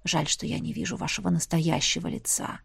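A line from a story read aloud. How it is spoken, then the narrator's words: Sudden whisper. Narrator (Russian): неожиданно прошептал император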